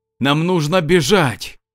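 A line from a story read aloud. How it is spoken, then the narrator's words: Shouting. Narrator (Russian): прокричал лев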